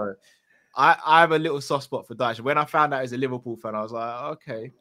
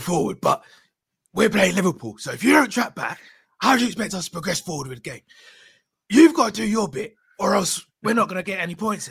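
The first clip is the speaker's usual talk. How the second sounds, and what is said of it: Impression of Sean Dyche. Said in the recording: “I can do his voice a little bit ... do a great impression”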